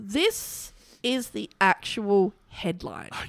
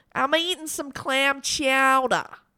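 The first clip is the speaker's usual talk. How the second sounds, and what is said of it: Attempted Boston accent. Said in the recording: “How do we do a Boston accent? ... That's probably more Fran Drescher.”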